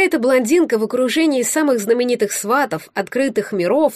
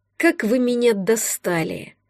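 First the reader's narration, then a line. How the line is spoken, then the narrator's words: Deafening growl close by. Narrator (Russian): прорычал Наум над ухом, чуть не оглушив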